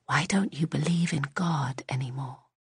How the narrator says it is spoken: William Ann whispered

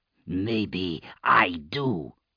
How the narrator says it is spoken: Ake growled

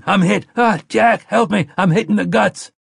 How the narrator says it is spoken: screaming

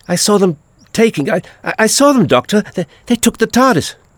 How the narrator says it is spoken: it was all she could do to gasp

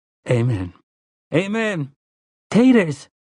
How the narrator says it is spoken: cried Tia

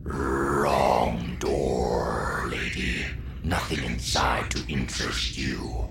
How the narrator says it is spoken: rasped

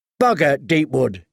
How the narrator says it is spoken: said

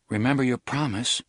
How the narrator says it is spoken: Alan said nervously

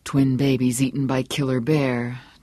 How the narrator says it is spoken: Johnny murmured

